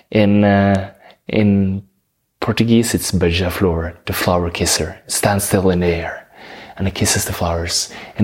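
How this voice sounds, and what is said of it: Norwegian accent. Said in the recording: “In Norwegian, I'm from Norway, that's why I have this beautiful accent.”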